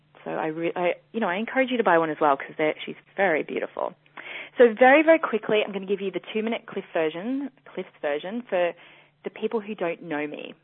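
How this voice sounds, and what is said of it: Australian accent. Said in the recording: “I'm Australian, or my accent might come as a complete shock to you and you're thinking, what is she saying? Her voice is so weird.”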